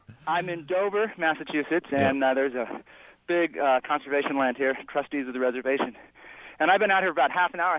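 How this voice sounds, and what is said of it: Slightly out of breath. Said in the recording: “I'm a little out of breath”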